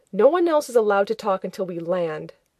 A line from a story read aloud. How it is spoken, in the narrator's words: Rodney, who snapped